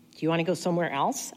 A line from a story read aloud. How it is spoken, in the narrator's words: I asked